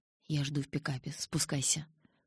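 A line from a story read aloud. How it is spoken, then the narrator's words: Whisper. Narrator (Russian): прошептал он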